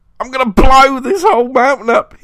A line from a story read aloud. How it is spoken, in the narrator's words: he screamed